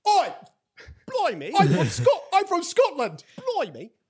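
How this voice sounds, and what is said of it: Put-on Scottish accent. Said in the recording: “you were boasting about your Scottish accent last week ... I thought your Scottish accent”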